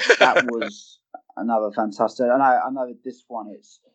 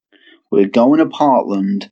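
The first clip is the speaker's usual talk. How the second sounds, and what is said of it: Bad Matt Riddle impression. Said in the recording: “that was a really bad Matt Riddle impression.”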